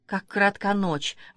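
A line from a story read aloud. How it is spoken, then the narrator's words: Exclaimed. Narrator (Russian): воскликнула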